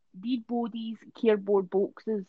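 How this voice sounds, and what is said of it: Put-on Dundee accent. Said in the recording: “Can you do your Dundee accent?”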